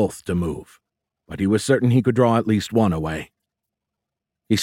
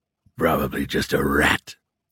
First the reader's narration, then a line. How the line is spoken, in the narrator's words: one said in a gravelly voice